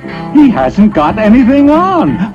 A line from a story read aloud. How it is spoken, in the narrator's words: the whole town cried out at last